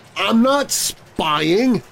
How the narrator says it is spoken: George exclaimed

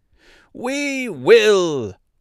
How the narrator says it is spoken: cried all the mice in a shrill chorus

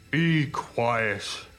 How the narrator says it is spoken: boomed the big truck

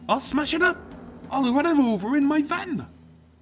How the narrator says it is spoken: the hot-tempered Tim, as he threatened her, squealing

